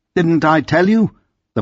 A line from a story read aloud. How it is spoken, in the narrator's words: remarked triumphantly